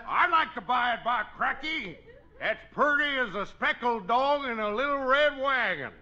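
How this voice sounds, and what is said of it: Exaggerated comic rural dialect. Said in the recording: “It's a lousy dialect”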